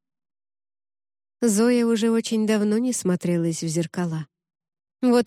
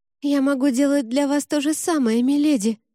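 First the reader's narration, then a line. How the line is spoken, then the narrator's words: Terrified girl babbling. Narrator (Russian): лепетала насмерть перепуганная девчонка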